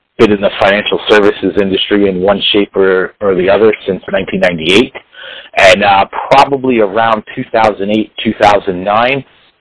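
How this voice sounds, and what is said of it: New York City area accent. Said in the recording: “you could probably tell by my accent, I'm a New York City area guy”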